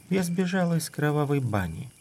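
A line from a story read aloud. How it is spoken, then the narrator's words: Almost sleepy voice. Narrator (Russian): проговорила она почти сонно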